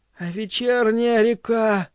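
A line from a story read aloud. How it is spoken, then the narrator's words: Whispered. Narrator (Russian): прошептала она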